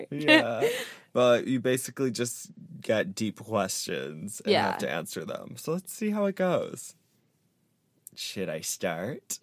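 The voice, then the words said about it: Foreign accent. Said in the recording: “my accent. ... Yeah, your accent that you were a foreign cutie.”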